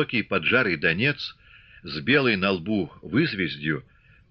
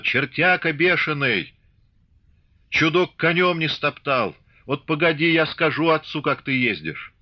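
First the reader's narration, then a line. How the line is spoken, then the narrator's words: Loud ringing shout from afar. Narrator (Russian): Еще издали голосисто крикнула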